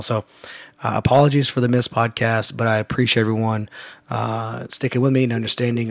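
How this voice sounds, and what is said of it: Hoarse, strained voice. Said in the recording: “I was been pretty sick ... As you can tell, my voice is still not great, and I had completely lost it over the weekend”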